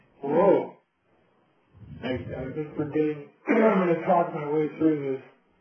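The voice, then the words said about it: Hoarse, strained, failing voice. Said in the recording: “I've lost my voice. ... Pardon me for my voice being this way.”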